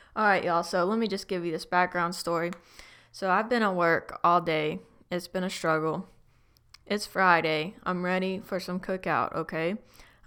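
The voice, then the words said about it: Fast, out-of-breath speech. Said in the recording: “Hang on, I need to take a breath. ... I talk way too fast. I'm out of breath.”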